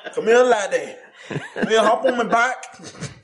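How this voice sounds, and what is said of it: Put-on Scottish accent. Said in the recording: “a dragon that speaks with a Scottish accent”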